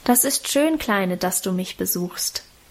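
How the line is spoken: Plain. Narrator (German): sagte sie

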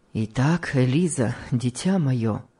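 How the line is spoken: Gloomy husband speaking. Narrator (Russian): мрачно сказал ей муж

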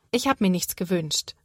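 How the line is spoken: Plain. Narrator (German): sagt Sophia

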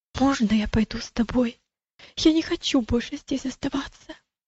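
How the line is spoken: Frightened boy's near whisper. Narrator (Russian): мальчик выглядел тоже очень испуганным и сказал почти шепотом

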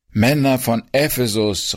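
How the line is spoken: Calling out. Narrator (German): rief er

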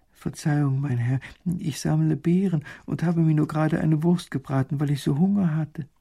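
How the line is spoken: Frightened woman speaking. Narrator (German): Die Frau wird ganz ängstlich bei den strengen Worten und sagt

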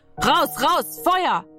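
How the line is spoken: Urgent shouting. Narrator (German): Er schrie

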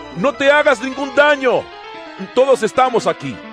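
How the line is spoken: Shouting. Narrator (Spanish): Pablo le gritó

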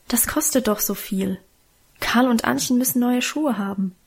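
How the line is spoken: Gentle mother objecting. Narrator (German): widersprach Mutter sanft

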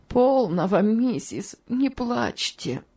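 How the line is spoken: Sobbing. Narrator (Russian): сказала тетушка Хлоя, в свою очередь раздражаясь рыданиями

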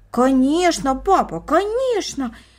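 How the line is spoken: Two children exclaiming in unison. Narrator (Russian): воскликнули брат и сестра в один голос

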